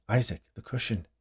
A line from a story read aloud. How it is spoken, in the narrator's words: Jeremy said to him softly